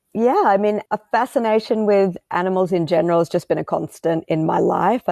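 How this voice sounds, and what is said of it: Australian accent. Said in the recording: “if you hadn't picked up on the on the accent, I am Australian”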